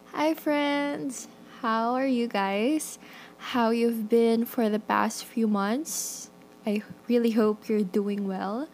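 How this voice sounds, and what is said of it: Nervous-sounding voice. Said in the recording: “As you can tell in my voice, I'm really nervous”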